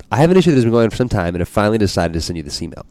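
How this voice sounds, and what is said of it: Reading very fast. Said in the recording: “read this fast.”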